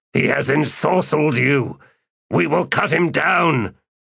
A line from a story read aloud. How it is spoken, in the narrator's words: the sergeant said in a harsh growl